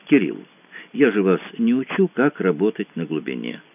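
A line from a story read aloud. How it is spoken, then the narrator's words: Very gentle, mildly reproachful. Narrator (Russian): сказал Франсуа предельно мягко, но все равно это прозвучало легкой недвусмысленной выволочкой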